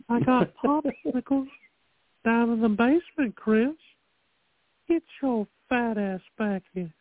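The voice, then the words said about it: Impression of Herbert from Family Guy. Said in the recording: “I can do the old man from Family Guy, or I used to be able to do it really good. Herbert. ... That actually is good, bro.”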